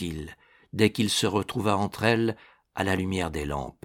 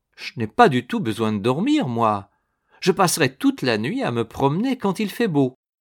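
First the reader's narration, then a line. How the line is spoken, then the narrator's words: Exclaimed. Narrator (French): Annette s'écria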